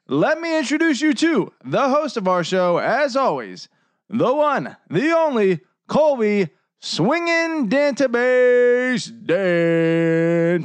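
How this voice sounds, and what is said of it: Imitates another person's voice. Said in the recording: “my Michael Buffer impression”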